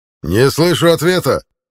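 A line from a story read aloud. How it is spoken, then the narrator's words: Barked command. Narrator (Russian): рявкнул центурион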